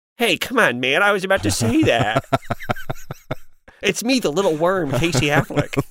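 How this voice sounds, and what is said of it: Imitates another person's voice. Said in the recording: “I feel like I'm digging through a sandbox trying to find the impression ... This is my impression. It's not even like it's a choice. It's just not the person's voice.”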